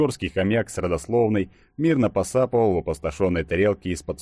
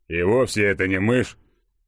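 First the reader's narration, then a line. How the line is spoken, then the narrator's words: Offended mumble. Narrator (Russian): с обидой пробурчал Игорек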